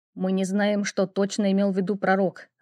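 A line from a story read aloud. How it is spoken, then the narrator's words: Irritated reply. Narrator (Russian): раздраженно отозвался он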